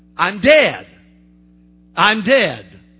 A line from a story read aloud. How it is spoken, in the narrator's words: they would shout